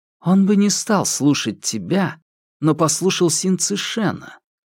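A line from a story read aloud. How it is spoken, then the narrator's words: Calm explanation. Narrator (Russian): спокойно пояснил Хуянь Юнь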